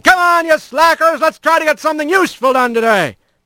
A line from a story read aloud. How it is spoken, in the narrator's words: laughed, the straw boss yelling